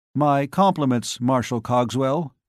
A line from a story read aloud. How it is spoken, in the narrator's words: He said stiffly